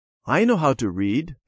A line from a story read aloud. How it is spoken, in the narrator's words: Peter told them eagerly